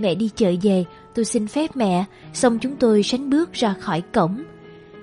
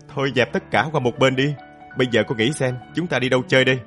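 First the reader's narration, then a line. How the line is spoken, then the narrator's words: Loud laughter. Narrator (Vietnamese): Hoàng cười lớn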